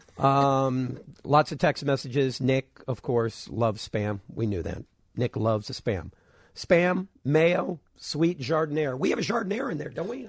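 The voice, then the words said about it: Strained, fading voice. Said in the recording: “I'm losing my voice here.”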